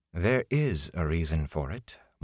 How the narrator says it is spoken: Moraine said calmly

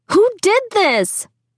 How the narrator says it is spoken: I scream

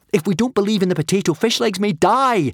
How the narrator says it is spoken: Hiccup yelled right back at his father

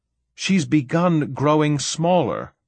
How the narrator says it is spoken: Saul shouted

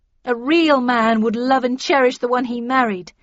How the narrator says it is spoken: she shouted

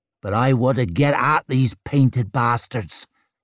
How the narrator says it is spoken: snarled Scofen, rubbing impatiently

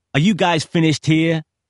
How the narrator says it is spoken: hollered BG

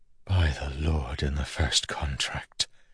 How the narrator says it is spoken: Milan whispered

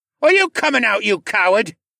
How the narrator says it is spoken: Cad's magically enhanced voice cried out

